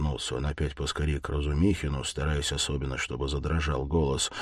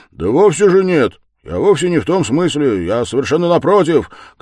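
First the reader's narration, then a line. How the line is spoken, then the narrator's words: Upset shouting. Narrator (Russian): кричал огорченный Разумихин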